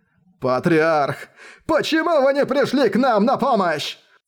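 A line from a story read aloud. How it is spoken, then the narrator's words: Desperate final group shout. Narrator (Russian): практики стадии зарождения души … закричали в последний раз в своей жизни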